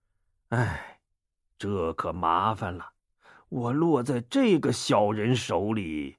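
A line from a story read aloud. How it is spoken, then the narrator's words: Inner silent sigh. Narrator (Chinese): 王进心里暗暗叹了口气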